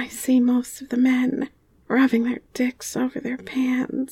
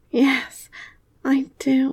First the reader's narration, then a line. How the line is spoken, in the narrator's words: I moan